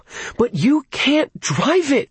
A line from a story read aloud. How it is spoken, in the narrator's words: she wailed